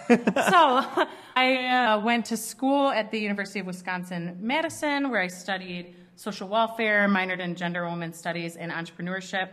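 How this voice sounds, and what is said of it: Strong Midwestern American accent. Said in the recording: “the strong Midwest accent oftentimes ... the further north I move, the worse my accent gets”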